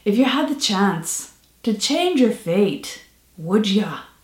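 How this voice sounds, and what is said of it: Attempted Scottish accent. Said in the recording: “because of the accent as much as it is the words, which I'm now going to attempt to mangle for you ... Set in 10th century medieval Scotland”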